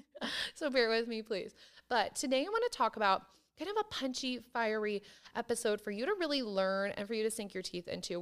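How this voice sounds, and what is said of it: Hoarse, croaky, fading voice. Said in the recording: “why I sound like a frog... I'm basically losing my voice... why I sound weird, that's why. I'm losing my voice”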